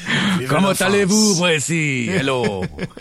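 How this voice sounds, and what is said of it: Put-on French accent. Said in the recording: “will read a French accent.”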